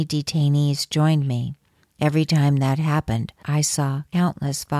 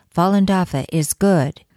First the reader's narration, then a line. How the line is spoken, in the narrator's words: I often called out